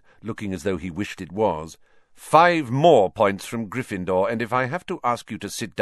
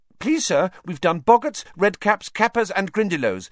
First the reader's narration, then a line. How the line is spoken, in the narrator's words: said Hermione quickly